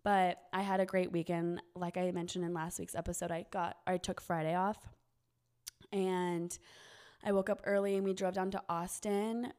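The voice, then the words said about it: Rough, run-down sounding voice. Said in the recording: “my voice is like not pretty because I'm kind of run down and my throat's burning”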